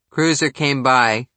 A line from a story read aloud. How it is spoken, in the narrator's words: Hurdle chuckled